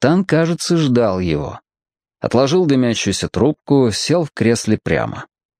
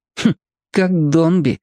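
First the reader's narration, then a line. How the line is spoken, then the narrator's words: Muttered to himself. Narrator (Russian): хмыкнул про себя Сушкин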